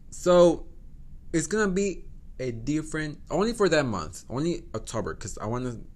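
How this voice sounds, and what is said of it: Non-native accented English. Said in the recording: “I'm sorry, my accent. I'm sorry for my accent.”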